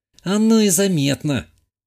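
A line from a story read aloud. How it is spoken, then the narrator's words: Young woman, sighing. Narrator (Russian): вздохнула молодая женщина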